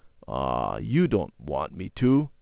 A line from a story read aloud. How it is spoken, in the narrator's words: he muttered